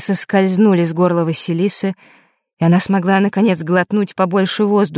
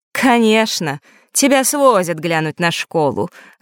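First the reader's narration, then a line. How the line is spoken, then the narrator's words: Snorting reply. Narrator (Russian): хмыкнув, отозвалась Елена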